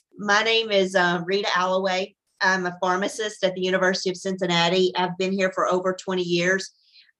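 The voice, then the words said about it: Tennessee accent. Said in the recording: “I was at the University of Tennessee. You can see the accent has not left me”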